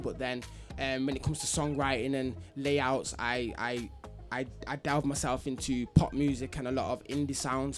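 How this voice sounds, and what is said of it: Manchester English accent. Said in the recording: “the people are hearing that accent. ... I'm from Manchester, my side. Manny, innit?”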